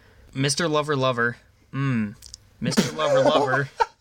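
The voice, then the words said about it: Flat monotone singing. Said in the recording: “This is as monotone as it gets.”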